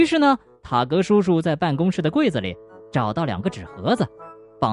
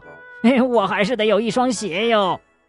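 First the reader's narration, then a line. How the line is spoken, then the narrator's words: Pained shouting. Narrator (Chinese): 他疼得大叫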